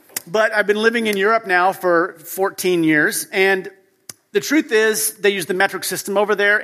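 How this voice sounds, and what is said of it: American English accent. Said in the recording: “obviously I grew up in the U.S., as you can tell by my accent.”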